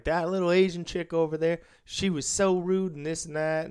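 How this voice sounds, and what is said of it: Bad put-on Tennessee accent. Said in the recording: “they were from Tennessee. I'm going to stop with the bad accent.”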